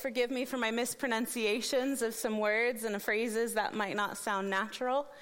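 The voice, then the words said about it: American accent. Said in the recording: “It's the American accent”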